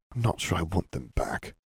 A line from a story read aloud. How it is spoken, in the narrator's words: whispered